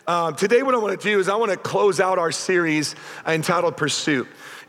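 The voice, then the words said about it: Nearly lost, worn-out voice. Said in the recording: “My voice is gone and I'm louder than you.”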